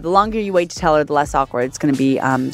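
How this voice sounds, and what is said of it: Strong regional accent. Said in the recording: “My accent's coming out hard”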